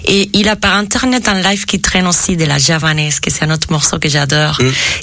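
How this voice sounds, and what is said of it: Heavy foreign accent in French. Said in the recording (French): “j'ai quand même un énorme accent”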